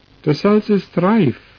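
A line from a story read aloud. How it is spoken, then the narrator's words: Swineherd calling out. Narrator (German): rief der Schweinehirt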